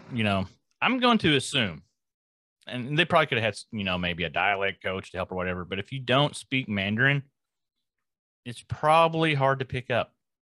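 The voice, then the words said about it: Country accent. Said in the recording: “my country-ass accent”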